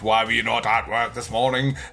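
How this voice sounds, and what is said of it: Theatrical, thespian character voice. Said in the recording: “I gave him a Picard voice there ... it'd be very thespian”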